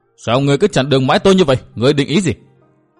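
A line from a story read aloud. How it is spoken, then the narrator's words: Enraged roar. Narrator (Vietnamese): bỗng nổi giận đến cực độ, chàng gầm to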